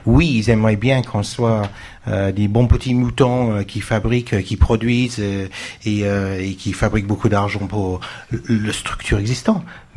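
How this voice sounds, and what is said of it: Strong Marseille French accent. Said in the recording (French): “mon accent ... quel accent, ... Ça sent le Marseillais. ... Mais oui, à fond.”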